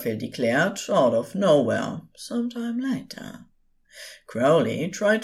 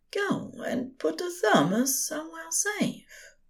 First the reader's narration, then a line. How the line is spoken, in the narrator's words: Aziraphale said softly, but in a tone that broke no argument